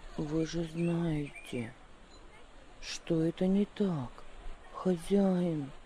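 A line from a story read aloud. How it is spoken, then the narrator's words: Calm reply. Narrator (Russian): ответил он спокойно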